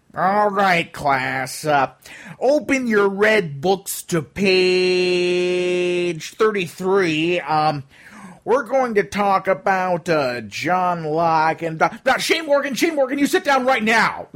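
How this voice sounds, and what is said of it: Imitates another person's voice. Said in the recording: “that impression was scarily accurate ... that sounded exactly like him”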